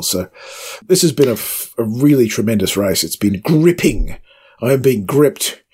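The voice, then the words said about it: Excited voice, pitched higher than usual. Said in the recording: “That's why my voice is a bit higher than it should be.”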